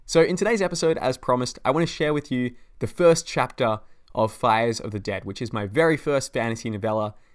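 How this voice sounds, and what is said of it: Excited, upbeat voice. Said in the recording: “I'm really excited. You can probably hear it in my voice.”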